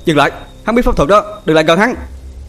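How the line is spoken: Shouting. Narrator (Vietnamese): Bình Yên quát lên

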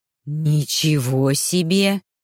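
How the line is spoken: Breathless exhale. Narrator (Russian): первым выдохнул Майрус

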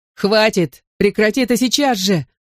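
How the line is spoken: Yelling at full volume. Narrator (Russian): заорал, что есть мочи, Дэви Рэй

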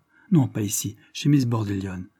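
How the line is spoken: Plain. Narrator (French): répondit M

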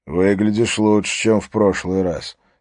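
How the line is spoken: Plain. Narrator (Russian): сказал Харри

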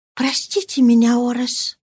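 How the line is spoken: Whisper in ear. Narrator (Russian): шепнула она на ухо ему

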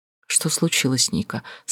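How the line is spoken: Soft gentle question. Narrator (Russian): спросил он мягко

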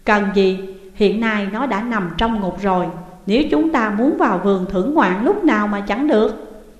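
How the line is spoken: Smiling. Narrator (Vietnamese): Trương Ủy mỉm cười rồi nói

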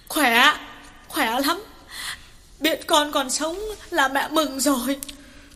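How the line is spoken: Sobbing, halting reply. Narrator (Vietnamese): Bà Lương sụt sùi mãi mới trả lời được

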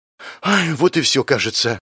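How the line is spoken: Sighing inner voice. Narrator (Russian): вздохнул Авари в моей голове

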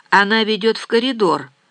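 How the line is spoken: Indifferent tone. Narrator (Russian): сказал Рауль безразличным голосом

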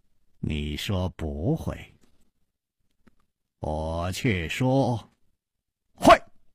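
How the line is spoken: Slow smile. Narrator (Chinese): 楚留香缓缓地笑了

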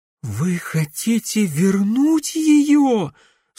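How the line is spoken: Horrified breathless girl. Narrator (Russian): с ужасом выдохнула девушка

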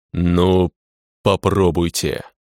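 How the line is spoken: Growled reply. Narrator (Russian): Прорычал в ответ

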